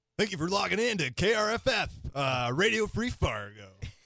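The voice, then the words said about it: Radio announcer voice. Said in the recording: “your radio voice”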